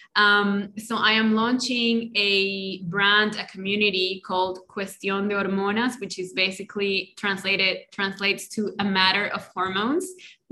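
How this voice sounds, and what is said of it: Spanish-accented English. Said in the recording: “my native language is Spanish, in case you didn't notice, with my accent”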